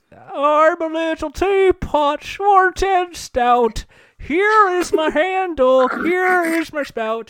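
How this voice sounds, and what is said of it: Imitates another person's voice. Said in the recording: “Do it in your Jimmy Stewart voice. ... He doesn't nail the.”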